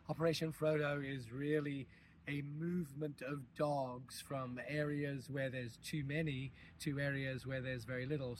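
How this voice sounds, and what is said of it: Partly lost, strained voice. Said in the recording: “I have excused my voice because I lost my voice yesterday”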